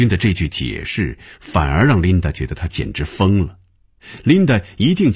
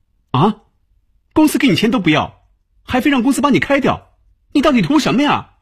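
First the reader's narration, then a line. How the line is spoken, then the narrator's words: Shrill, harsh voice. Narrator (Chinese): 琳达发出这样的声音，没有这么刺耳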